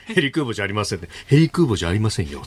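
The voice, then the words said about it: Imitates another person's voice, weak quality. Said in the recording (Japanese): “最近、ちょっと、石破さんのものまねやってないから、ちょっとクオリティ下がってる... 今のがものまねだと気が付くかどうかのギリギリのライン”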